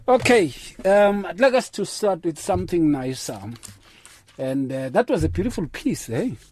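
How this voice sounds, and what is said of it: Voice in poor condition. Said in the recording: “forgive my voice, it's a bit bad today ... it's a bit bad”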